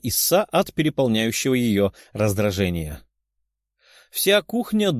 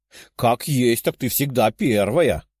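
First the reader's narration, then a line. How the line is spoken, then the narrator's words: Loud stern woman. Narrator (Russian): громко произнесла суровая египтянка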